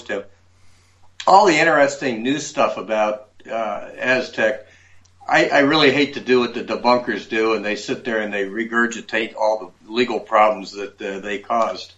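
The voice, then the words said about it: Hoarse, fading voice. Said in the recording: “excuse me, I'm losing my voice”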